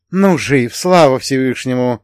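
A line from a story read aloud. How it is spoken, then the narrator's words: Relieved exhale, strong warrior. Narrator (Russian): облегченно выдохнул богатырь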